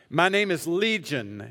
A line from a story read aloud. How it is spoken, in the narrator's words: he replied